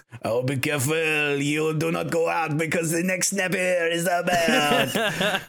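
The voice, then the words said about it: Bad put-on French accent. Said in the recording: “the waiter with the worst French accent in the entire thing”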